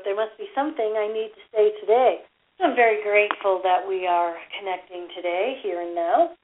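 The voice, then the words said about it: Slightly hoarse, throaty voice. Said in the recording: “I have a little frog in my throat.”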